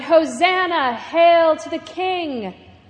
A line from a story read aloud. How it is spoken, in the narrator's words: voices now scream